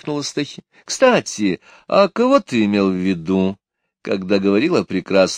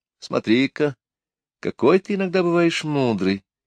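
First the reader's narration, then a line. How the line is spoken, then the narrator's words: Sad. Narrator (Russian): печально сказала Техи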